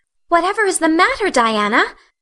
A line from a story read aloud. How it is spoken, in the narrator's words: cried Anne